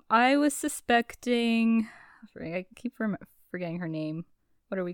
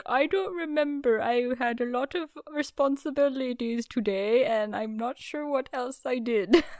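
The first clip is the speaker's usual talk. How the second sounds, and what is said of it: Put-on character accent. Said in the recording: “This accent you're giving him? ... That's my lodge owner accent.”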